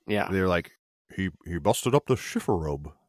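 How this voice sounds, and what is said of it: Imitates another person's voice. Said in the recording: “my Gregory Peck impression... Scowl, was good.”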